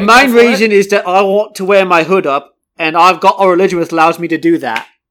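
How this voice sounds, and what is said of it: Put-on cockney British accent. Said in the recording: “a little cockney, a little bit of like a under, sort of like a lower class British accent”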